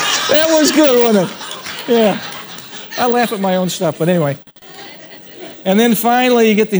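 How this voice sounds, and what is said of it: Usual voice. Nothing is said of it.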